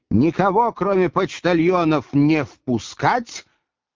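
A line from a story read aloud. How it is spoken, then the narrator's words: Bark. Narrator (Russian): Он рявкнул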